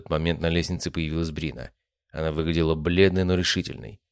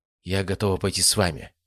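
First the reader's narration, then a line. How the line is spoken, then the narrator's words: Quiet. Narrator (Russian): сказала она тихо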